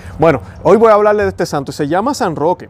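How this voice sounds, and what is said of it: Puerto Rican accent, fast speech. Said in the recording (Spanish): “yo hablo rápido ... yo soy puertorriqueño, tengo mi acento”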